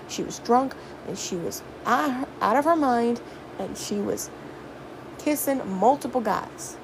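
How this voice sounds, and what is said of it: Put-on Southern accent. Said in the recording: “saying it in a southern accent”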